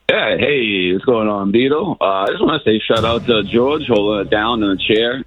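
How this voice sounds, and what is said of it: Froggy, hoarse voice. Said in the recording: “Excuse my voice, Beetle. It's a little froggy over the weekend. I blasted off over 2,000 pounds of fireworks.”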